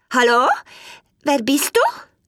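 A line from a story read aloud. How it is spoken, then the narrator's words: Donkey calling out. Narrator (German): Der Esel rief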